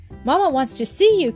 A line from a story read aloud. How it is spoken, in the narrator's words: cried Willie eagerly